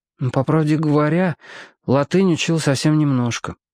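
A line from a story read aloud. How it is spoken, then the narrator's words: Unsure reply. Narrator (Russian): ответил Роб неуверенно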